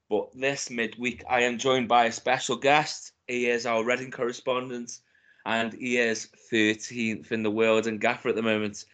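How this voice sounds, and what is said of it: Hoarse, congested voice. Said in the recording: “excuse my voice. I know it's bad normally, but I've got a bit of a cold”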